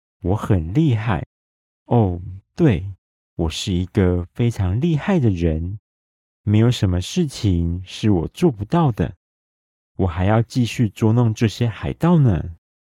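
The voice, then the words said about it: Quiet, low-voiced speech. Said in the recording (Chinese): “小声的说着”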